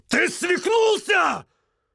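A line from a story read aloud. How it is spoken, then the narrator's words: Roar. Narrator (Russian): взревел Андре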